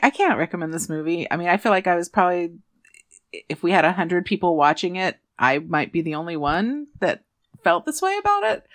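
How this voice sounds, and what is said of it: Smiling while speaking. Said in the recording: “I'm still smiling right now. You can probably tell by how my voice is.”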